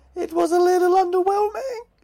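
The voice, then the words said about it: High-pitched cartoon character voice. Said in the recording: “That's my Stewie Griffin high voice there.”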